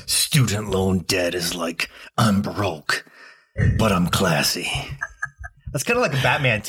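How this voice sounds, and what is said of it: Gravelly grumpy old man voice. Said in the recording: “the next accent is grumpy old man ... I gotta get into Clint Eastwood ... a little like, Batman ... It was like Clint Eastwood”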